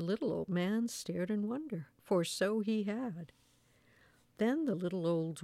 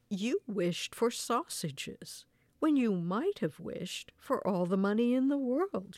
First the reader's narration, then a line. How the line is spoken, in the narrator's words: exclaimed